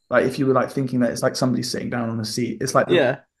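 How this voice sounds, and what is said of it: Mixed English regional accent, Suffolk. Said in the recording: “There's a certain accent that you have... my accent's just kind of all over the place, really... where I'm from, it's proper Suffolk vibes”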